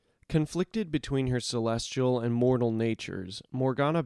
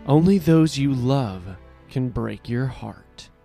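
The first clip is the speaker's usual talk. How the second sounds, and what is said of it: Poorly imitated character voice. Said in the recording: “my terrible impression”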